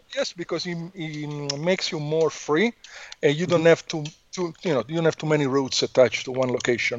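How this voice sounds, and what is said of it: Italian accent. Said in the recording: “I'm from Italy, as you can hear from my accent ... I don't speak like Mario”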